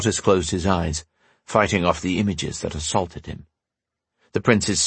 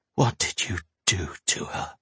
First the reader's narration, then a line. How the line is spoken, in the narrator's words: he whispered